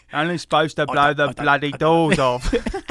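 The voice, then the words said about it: Imitates another person's voice. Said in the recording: “It's my very Michael Caine.”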